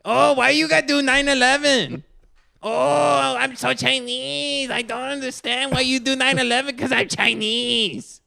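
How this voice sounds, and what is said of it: Loud put-on Chinese accent. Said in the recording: “loud Chinese guy ... Doing this voice ... That was my impression of Ali Wong.”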